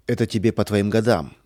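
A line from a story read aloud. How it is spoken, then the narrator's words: Irritated. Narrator (Russian): сказал он раздраженно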